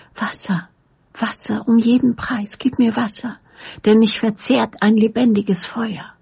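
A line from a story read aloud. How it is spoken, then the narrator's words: Quiet murmur. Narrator (German): leise kam es über seine Lippen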